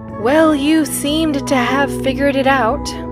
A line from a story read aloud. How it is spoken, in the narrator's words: said with a sigh